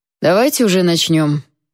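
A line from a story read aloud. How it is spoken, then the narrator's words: Grumbling. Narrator (Russian): проворчался Йон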